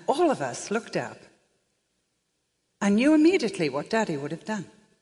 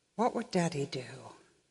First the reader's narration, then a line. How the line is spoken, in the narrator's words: And my sister said very quietly